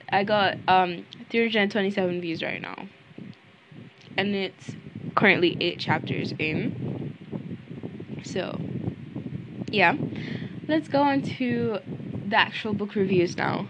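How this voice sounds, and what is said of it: Hoarse, strained voice. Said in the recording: “Why do I sound like this? Oh my god, I'm losing my voice.”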